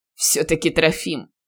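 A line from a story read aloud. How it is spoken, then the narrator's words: Chuckling. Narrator (Russian): хохотнул бывший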